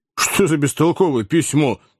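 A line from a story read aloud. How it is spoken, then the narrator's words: Exclamation. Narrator (Russian): воскликнул Сэм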